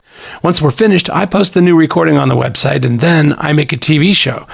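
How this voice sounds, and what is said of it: Voice affected by allergies. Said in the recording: “apologize for my voice. I have a really bad reaction to allergies ... So please excuse my voice”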